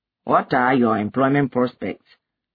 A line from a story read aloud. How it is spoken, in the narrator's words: her father asked